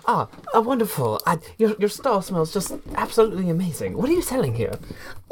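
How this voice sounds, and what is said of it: Put-on character voice. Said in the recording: “I get a character voice.”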